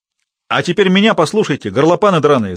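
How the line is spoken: Yelling. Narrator (Russian): завопил он

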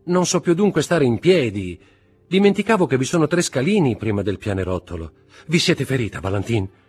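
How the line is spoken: Shouted. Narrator (Italian): gridò Morrel

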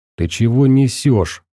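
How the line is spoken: Angry. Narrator (Russian): зло сказал ему Фил

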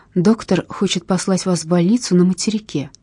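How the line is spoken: Quiet. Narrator (Russian): обратилась она негромко

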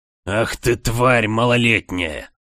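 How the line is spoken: Venomous hiss. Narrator (Russian): прошипел он не хуже, чем ядовитый змей

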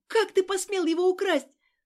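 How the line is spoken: Furious scream. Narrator (Russian): закричала, обезумев от злости

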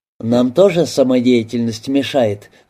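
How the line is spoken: Sighing woman. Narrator (Russian): вздохнула проститутка

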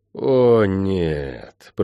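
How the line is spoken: Groan. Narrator (Russian): простонал я

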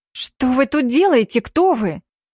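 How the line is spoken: Angry hiss. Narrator (Russian): Зло прошипела девица

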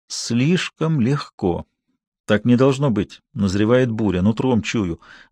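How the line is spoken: Gloomy, muttering to himself. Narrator (Russian): мрачно говорил он себе

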